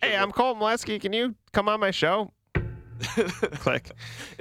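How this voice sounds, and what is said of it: Poor imitation of co-host's voice. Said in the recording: “Is that how I sound to you? ... My accents are really messed up.”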